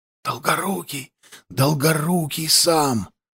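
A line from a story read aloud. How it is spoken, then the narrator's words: Muffled whisper through crowd. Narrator (Russian): пронесся глухой шепот по рядам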